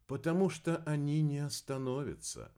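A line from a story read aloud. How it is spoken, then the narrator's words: Gentle explanation. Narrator (Russian): мягко объяснила Валерия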